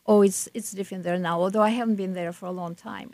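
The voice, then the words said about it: Noticeable non-native accent. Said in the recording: “they say where are you from, meaning my accent. ... No, we can hear that.”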